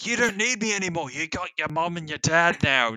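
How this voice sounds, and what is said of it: Rough imitation of a character's voice. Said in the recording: “This is a horrible. accent, ... This is a rough idea of what Gooby sounds like.”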